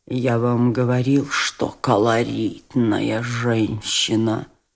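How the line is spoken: Muttered, somewhat pale. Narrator (Russian): пробормотал тоже отчасти побледневший Афанасий Иванович

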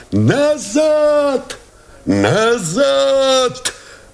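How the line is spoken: Shouting. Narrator (Russian): закричал Новиков

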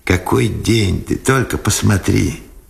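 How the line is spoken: Joyful. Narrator (Russian): радостно сказал Сенцов

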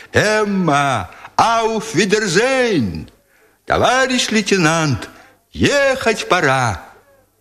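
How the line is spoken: Soldiers shouting merrily, overlapping. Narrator (Russian): голоса солдат, которые весело кричали им в разнобой

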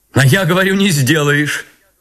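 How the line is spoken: Speaking, then loud laughter. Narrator (Russian): проговорила она и громко засмеялась

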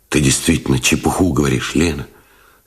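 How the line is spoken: Calm. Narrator (Russian): сказал Новиков спокойно

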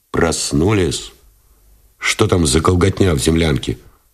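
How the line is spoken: Displeased question. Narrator (Russian): спросил Новиков недовольным тоном

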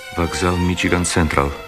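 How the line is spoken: Very quiet. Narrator (Russian): сказал ему Герствуд так тихо, что Кэрри не могла его слышать

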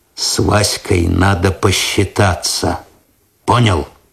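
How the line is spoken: Quiet. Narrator (Russian): Косой тихо сказал

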